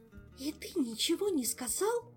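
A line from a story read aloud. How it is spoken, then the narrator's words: Hissing. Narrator (Russian): зашипела Ольга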